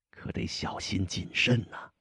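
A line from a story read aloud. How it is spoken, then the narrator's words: Low, hushed voice. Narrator (Chinese): 压低了声音，带着令人难忘的神情说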